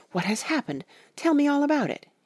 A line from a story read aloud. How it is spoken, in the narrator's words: he cried without pausing